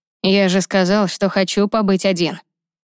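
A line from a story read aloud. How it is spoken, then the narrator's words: Rude, gruff. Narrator (Russian): грубо ответил он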